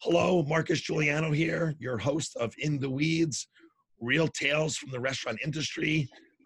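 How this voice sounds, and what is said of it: Weak, strained voice. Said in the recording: “My voice is a little off today ... can't seem to find my voice”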